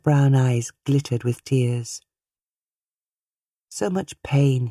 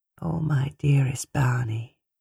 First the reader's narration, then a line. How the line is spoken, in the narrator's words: The older woman murmured